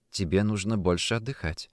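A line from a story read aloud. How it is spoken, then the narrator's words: Quiet. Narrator (Russian): тихо произнесла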